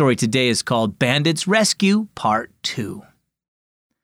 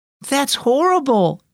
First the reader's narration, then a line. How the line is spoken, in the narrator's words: exclaimed Ruby